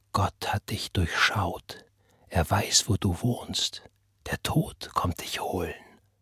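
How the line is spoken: Persistent whisper in ear. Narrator (German): die Stimme flüsterte und flüsterte ihr ins Ohr

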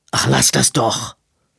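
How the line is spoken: Rough, guilty snapping. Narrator (German): blaffte Edwin, die Stimme rau von Schuldgefühlen

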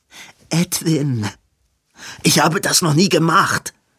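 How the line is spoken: Hissing snap. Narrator (German): fauchte Edwin

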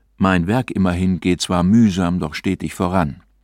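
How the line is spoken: Ordinary voice. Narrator (German): Ich sprach mit gewöhnlicher Stimme

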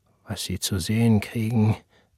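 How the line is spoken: Father's mutter. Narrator (German): murmelte sein Vater

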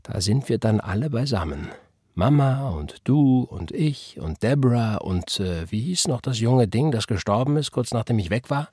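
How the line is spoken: Slow woman. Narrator (German): sagte sie langsam

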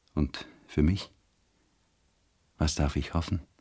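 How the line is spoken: Soft lisping. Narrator (German): lispelte er leise

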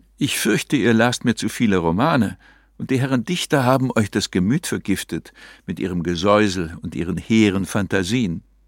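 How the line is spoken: Sighing. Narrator (German): seufzte Ariane

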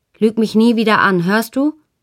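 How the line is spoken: Shouted. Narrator (German): rief ich

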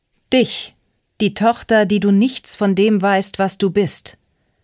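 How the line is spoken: Calling out. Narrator (German): rief Cody Evans Ruby entgegen

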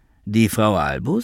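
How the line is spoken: Plain. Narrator (German): sagte Ethel

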